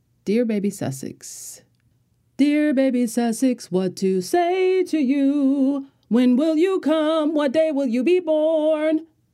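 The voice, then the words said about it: Imitates another person's singing voice. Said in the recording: “In my Beyonce voice.”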